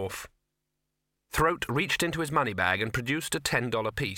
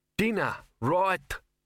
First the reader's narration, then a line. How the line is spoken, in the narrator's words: quavered Frontkin